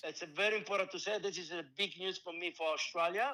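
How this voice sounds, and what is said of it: Speaks English with a noticeable accent. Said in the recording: “great interview and great accent.”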